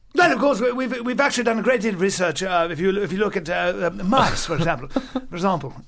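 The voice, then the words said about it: Put-on foreign accent. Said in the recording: “accent? ... You can get away with anything with an accent like that.”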